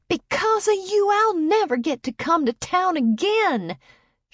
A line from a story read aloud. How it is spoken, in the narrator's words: yelled